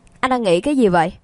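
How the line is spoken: Confident loud laughter. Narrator (Vietnamese): Lương Đông tự tin cười lớn

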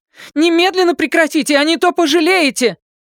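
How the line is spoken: Frightened shriek. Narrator (Russian): Джейн Фаргуд в страхе взвизгнула

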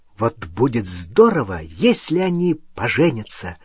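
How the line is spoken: Excited whisper. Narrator (Russian): восторженно прошептала Лили

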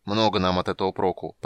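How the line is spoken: Grumbling. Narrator (Russian): проворчал Гнимш

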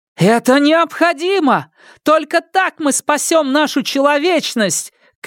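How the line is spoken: Shout, female. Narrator (Russian): крикнула она

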